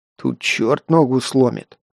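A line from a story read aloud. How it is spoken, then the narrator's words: Grumble. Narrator (Russian): буркнул Герман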